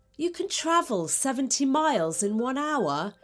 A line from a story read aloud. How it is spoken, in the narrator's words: he cried, not believing what he was hearing